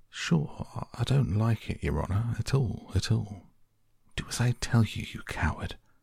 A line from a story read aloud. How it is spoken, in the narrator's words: whispers